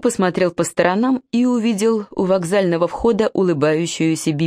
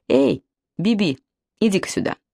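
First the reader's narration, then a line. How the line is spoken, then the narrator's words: Stern command. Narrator (Russian): скомандовал строгим голосом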